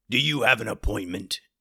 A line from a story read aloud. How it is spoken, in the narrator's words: the guard growled